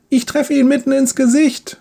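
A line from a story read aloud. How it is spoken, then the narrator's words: Triumphant shout. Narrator (German): ruft, als sein Pfeil das Ziel trifft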